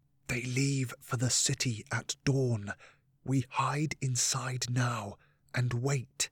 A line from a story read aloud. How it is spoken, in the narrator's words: Nicholas leant forward to whisper